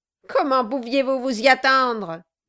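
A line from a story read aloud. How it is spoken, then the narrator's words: Dwarf sneering laugh. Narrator (French): dit le nain en ricanant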